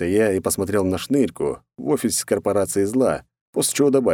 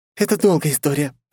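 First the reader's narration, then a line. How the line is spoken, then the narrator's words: Snapping woman. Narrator (Russian): огрызнула женщина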